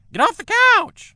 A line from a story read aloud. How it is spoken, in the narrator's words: she shrieked